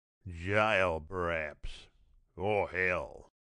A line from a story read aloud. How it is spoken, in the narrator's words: growled Baku